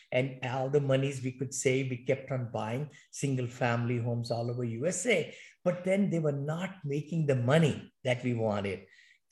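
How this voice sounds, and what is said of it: Thick Indian English accent. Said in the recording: “You came from India. You said you got the thick accent. Even today you've got the accent, but I can understand every word you said”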